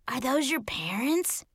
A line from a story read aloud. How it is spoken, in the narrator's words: Sophie whispered